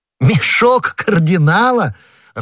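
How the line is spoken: Laughing. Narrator (Russian): расхохотавшись, сказал Д'Артаньян

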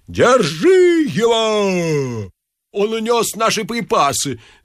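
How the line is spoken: Yelling while running. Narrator (Russian): завопил Ипполит Матвеевич, подбегая к Остапу

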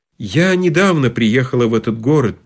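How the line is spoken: Sad woman's voice. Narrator (Russian): печально сказала дама

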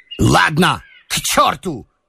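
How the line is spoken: Angry, feigned, embarrassed shout. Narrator (Russian): крикнул он сердито, но уже с долей притворства и смущения

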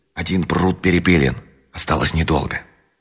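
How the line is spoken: Quiet announcement. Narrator (Russian): голос тихо возвестил

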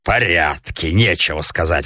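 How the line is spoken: Grumbled. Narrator (Russian): проворчал сосед

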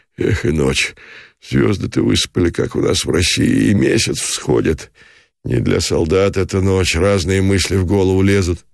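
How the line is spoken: Sleepy grunting sentry mumbling. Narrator (Russian): откликнулся часовой и, крякая, забормотал дремотно

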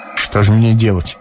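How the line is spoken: Gloomy, gruff question. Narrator (Russian): спросил Ромашов мрачно и грубовато

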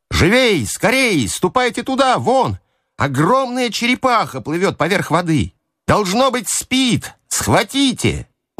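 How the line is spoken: Shouted from a distance. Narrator (Russian): Савич закричал с палубы гребцам

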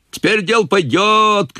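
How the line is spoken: Men shouting. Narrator (Russian): кричали мужики

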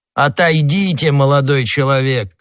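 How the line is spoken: Shouted. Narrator (Russian): крикнул де Жусак

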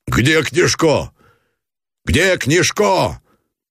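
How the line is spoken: Shouting. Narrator (Russian): закричал Гранатуров

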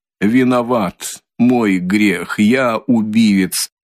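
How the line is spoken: Sudden breathless but loud. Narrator (Russian): вдруг произнес Николай, как будто несколько задыхаясь, но довольно громким голосом

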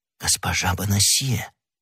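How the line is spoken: Whispered. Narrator (Russian): прошептал Д'Артаньян

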